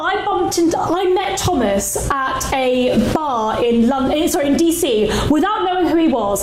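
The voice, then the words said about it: British accent. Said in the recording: “I had a British accent”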